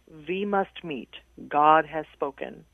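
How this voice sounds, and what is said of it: Strong Hungarian accent. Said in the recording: “She had a really strong Hungarian accent.”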